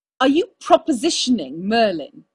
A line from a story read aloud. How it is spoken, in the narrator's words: He snarled